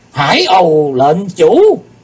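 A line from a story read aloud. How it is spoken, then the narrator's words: Moved group crying out. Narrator (Vietnamese): Bất giác chúng động lòng kêu lên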